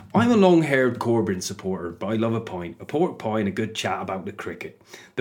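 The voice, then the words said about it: Put-on West Country accent. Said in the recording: “So I'm going to pick an accent for Tom. I'm going to go West Country with this”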